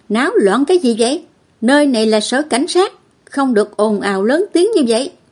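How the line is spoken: Loud stern shout. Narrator (Vietnamese): sĩ quan cảnh sát quát lớn

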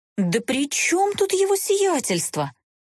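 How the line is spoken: Indignant exclamation. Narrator (Russian): возмущенно всплеснула руками глупышка

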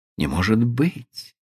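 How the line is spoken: Fearful, surprised whisper. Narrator (Russian): со страхом и удивлением прошептала она

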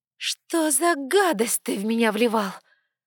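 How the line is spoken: Unexpectedly loud, hoarse voice. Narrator (Russian): Голос прозвучал неожиданно громко, но хрипло

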